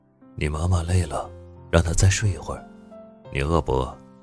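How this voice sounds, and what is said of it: Quiet, hushed voice. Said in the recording (Chinese): “小声的阻止”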